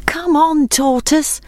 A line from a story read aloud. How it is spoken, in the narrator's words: called his friends anxiously